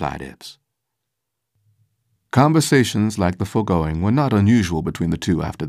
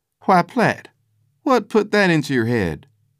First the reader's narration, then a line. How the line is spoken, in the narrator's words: he answered